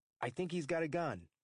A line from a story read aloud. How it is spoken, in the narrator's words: Liga call in an even louder voice